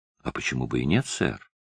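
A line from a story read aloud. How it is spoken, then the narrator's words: Soft reply. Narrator (Russian): мягко ответил Мордонт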